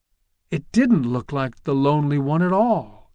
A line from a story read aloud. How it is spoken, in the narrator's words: gasped Charlie